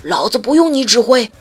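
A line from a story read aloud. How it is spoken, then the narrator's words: Father roaring loudly. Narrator (Chinese): 他爸在那边大吼一声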